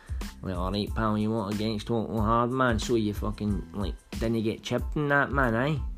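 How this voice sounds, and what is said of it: Put-on regional accent. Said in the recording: “I may start changing my voice now and again ... Maybe even change my accent.”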